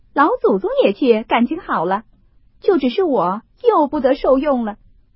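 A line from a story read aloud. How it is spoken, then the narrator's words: Laughing. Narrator (Chinese): 凤姐听说笑道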